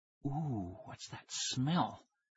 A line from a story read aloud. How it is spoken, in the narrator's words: Tara whispered